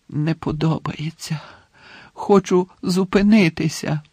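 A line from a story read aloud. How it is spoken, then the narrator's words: Moaning. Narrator (Ukrainian): простогнав Дамблдор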